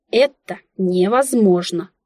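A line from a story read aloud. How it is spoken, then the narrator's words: Deflated woman exhaling. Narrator (Russian): выдохнула вмиг как-то сдувшаяся женщина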